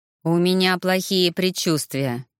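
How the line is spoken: Gloomy voice over comms. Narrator (Russian): мрачно прозвучал по связи голос Ивара

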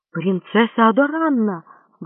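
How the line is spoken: Exclamation. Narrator (Russian): воскликнул он

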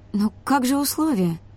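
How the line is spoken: Uncertain question. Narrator (Russian): неуверенно спросила Олли

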